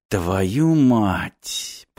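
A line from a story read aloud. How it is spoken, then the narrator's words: Muttered. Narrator (Russian): пробормотал Мартин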